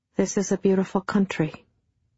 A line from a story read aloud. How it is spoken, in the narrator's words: Bill said again quietly to himself